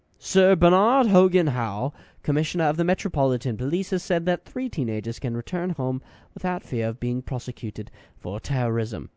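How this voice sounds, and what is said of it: Put-on English accent. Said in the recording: “that's where my English accent stops, and now we're going to go, I'm going to go American on you”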